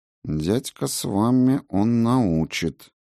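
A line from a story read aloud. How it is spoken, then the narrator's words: Muttered. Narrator (Russian): пробормотала госпожа Клара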